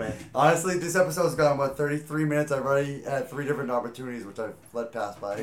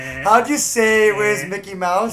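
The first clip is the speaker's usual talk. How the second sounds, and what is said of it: Imitates another person's voice. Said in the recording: “my impression of Franz Wagner”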